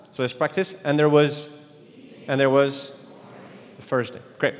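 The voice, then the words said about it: French-accented English speech. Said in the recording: “my French accent gets in the way”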